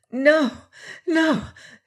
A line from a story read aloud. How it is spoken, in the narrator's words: panted